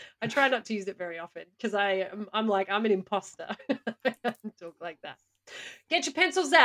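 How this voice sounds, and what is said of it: Usual voice. Nothing is said of it.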